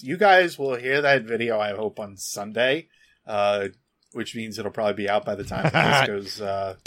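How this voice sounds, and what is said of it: Strained, worn-out hoarse voice. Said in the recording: “My throat is thrashed because of voicing a video before this ... my voice is pretty thrashed at this point”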